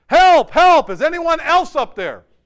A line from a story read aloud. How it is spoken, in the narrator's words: Finally, Jack yelled